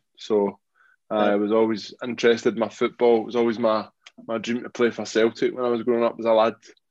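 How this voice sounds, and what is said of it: Glaswegian Scottish accent. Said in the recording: “I grew up in Glasgow, as you can probably tell my accent”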